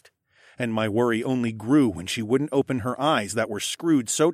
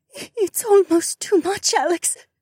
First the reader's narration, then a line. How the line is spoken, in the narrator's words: whimpered